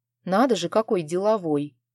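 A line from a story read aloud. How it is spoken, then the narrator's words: Grumbled. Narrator (Russian): пробурчала я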